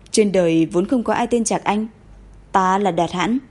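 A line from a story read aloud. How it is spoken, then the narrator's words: Cold reply. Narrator (Vietnamese): cậu lạnh lùng cất giọng trả lời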